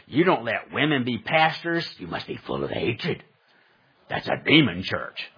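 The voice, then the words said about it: Mocking caricature voice of critics. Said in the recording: “my apostate, evil, wretched people who hate our church voice”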